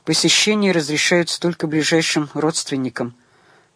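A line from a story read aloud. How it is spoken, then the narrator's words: Curt, through teeth, final. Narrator (Russian): процедила сестра, всем видом показывая, что разговор окончен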